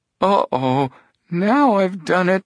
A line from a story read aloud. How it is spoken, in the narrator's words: he moaned